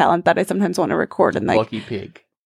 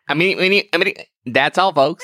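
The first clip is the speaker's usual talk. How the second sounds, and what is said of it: Porky Pig cartoon voice impression. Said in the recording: “You're really good at impersonations... That was actually pretty good... Porky Pig”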